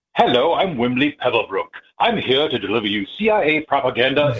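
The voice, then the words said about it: Mock British news announcer voice. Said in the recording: “do an impersonation of the news bumper you have to listen to on hold ... in a British accent”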